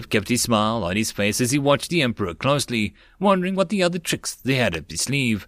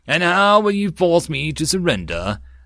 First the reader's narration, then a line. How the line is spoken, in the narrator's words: The emperor laughed